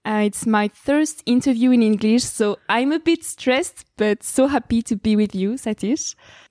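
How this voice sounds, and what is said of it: Strong French accent. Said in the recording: “I have a very big French accent.”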